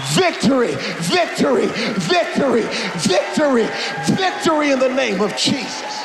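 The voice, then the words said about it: Screaming, loud preaching. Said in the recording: “I'm preaching harder than I want to ... I'm sorry I'm screaming so much.”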